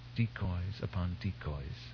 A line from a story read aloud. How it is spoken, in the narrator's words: Bersmali whispered